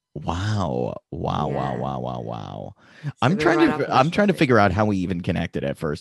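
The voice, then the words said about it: American accent. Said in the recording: “I love your accent ... The American accent ... You and American accents in general”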